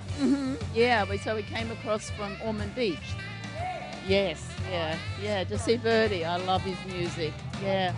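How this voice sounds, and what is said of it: Australian accent. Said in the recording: “I really like your accent. ... a Australian accent.”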